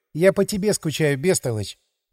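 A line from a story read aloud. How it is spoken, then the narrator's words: Sighing. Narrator (Russian): вздохнула она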